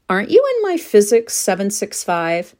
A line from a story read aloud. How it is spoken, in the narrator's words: She giggled